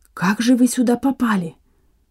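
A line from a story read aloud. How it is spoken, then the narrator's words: Whispered question. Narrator (Russian): шепотом спросил Иван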